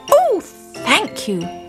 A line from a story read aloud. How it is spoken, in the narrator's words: cried Simon